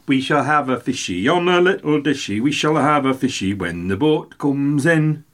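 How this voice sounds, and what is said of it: Attempted Geordie accent while singing. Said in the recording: “that's an attempt to the Geordie accent.”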